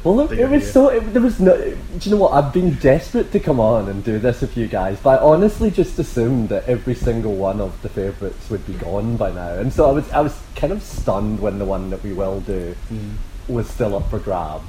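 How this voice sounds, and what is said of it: Scottish Glasgow accent. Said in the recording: “by a Glasgow in Melbourne... Is that where that accent is from?”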